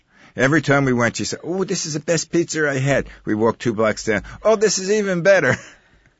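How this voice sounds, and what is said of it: New York accent. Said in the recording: “I'm a native New Yorker, as you can tell by my accent.”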